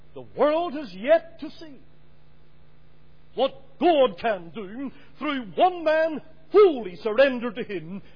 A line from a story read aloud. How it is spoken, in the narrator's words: Moody cried out